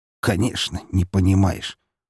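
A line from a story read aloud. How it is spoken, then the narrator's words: Snorting. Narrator (Russian): фыркнул его отец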